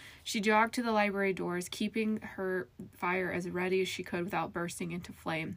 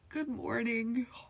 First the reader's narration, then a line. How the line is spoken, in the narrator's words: Gilmore yawned